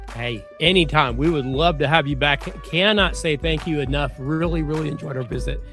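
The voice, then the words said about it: Strained, failing voice. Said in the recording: “losing my voice because apparently I've talked too much”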